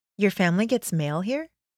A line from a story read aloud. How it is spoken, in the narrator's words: Nova said